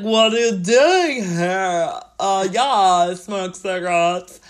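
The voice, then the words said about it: Loud, weird fake American accent. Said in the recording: “his American accent ... the one of the weirdest sounding things I've ever heard ... He's very like loud”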